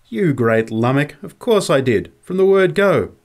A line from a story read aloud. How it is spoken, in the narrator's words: There was something of the old tone in her voice when she laughingly replied